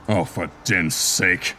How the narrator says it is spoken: growled

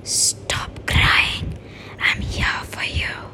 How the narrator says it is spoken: a whisper, like a soft voice in the air

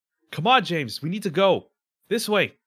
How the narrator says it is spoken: he yells at you

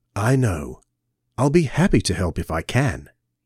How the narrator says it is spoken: The doctor said gently

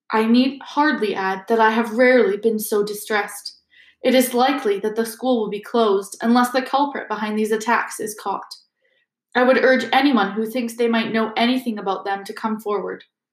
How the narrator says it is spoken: said in a somewhat choked voice

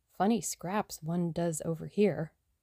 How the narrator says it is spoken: murmured Tommy

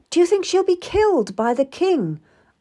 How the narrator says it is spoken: asked anxiously

